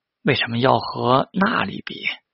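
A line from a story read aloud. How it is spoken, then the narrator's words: Sighing exclamation. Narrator (Chinese): 木下秀风感叹道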